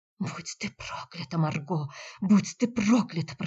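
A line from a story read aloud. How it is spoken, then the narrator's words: Whispered curse. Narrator (Russian): прошептала она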